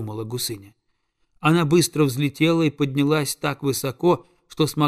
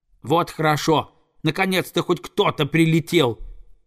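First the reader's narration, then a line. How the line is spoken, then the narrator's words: Young eagle shouting. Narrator (Russian): закричал орленок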